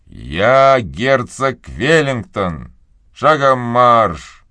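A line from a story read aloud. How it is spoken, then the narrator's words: Menacing. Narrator (Russian): Медленно, чтобы не наделать шума, грозно сказал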